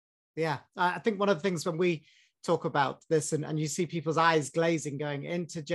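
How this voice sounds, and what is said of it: Usual voice. Nothing is said of it.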